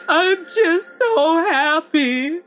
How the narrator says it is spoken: she chokes out through her sobs

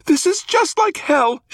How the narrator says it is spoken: she screamed

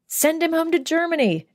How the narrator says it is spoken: shouted Shlomo

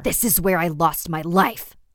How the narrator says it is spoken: she'll shout in your ear

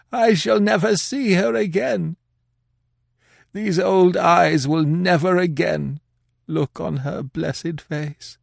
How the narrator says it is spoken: The old man sobbed out

